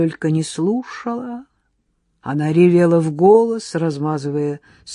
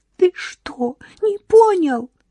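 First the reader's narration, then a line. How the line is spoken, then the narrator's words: Wailing between sobs. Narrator (Russian): причитала между всхлипами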